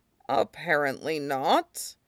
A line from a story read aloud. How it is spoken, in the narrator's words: Iroh murmured